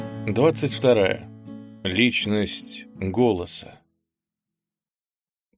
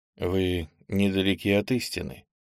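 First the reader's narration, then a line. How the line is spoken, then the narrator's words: Sad. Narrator (Russian): печально сказал он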